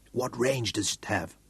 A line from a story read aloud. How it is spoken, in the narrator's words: Craig asked in a whisper